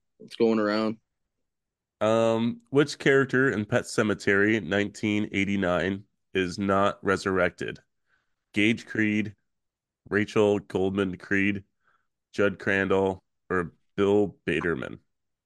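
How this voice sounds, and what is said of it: Raspy, slightly hoarse voice. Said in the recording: “My voice is a little messed up. I'm still coming down. Coming off from, sickness ... I'm a little raspy still.”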